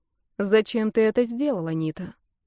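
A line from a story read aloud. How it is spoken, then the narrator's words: Calm question. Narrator (Russian): она спокойно спросила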